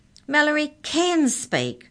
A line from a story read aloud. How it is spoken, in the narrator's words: shouted Arthur